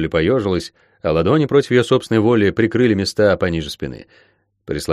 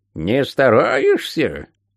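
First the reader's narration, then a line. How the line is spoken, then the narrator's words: Menacing witch's question. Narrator (Russian): грозно осведомилась ведьма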